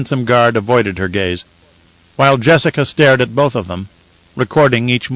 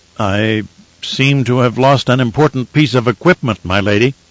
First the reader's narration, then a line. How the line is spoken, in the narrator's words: stammered, looking very embarrassed